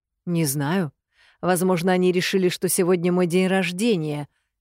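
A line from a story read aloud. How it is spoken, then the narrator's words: Plain. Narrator (Russian): говорит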